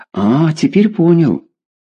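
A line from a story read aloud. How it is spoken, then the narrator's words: Disappointed sigh. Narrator (Russian): разочарованно вздохнул Игорь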